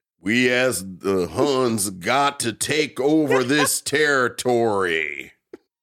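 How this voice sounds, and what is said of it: John Wayne impression. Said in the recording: “John Wayne playing Genghis Khan”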